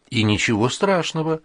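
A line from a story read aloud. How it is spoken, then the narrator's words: Calm. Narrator (Russian): уже спокойно сказала Нинкина мать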